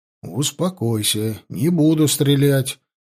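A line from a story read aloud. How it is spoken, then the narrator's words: Low voice. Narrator (Russian): сказал я вполголоса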